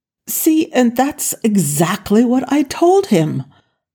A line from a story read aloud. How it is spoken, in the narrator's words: Jack said triumphantly